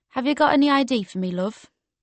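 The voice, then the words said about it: Strong Geordie accent. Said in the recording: “in a strong Geordie accent”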